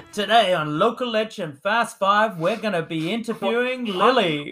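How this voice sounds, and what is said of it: Put-on American game-show-host voice. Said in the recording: “Why has your accent gone American? ... Like, do you want to be a game show host?”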